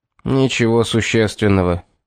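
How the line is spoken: Irritated. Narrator (Russian): раздраженно сказал Юарт

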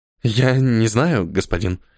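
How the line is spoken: Trembling young man. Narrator (Russian): дрожащим голосом ответил юноша

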